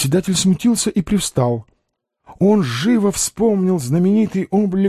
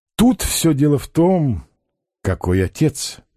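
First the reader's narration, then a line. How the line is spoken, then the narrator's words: Sad remark. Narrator (Russian): грустно заметил посетитель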